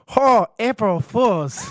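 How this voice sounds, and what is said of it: Thick put-on foreign accent. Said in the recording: “Like the foreigner character ... not with the accent ... no, no thicker ... It was too good ... That was better.”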